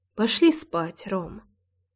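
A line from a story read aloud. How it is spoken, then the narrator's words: Sighing. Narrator (Russian): вздохнула и произнесла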